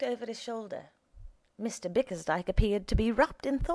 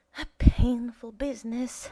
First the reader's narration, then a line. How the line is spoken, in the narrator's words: sighed Smith